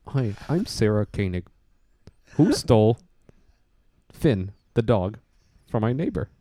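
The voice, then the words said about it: Calm NPR-style public radio voice. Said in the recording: “Is that what she sounds like? ... that's pretty good. ... it was pretty good. ... Solid. ... That's just my NPR voice. ... it's the same voice.”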